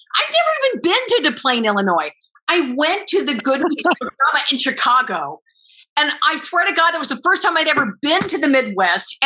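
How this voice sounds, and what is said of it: Exaggerated New York accent. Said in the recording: “I'm a bit exaggerating my accent”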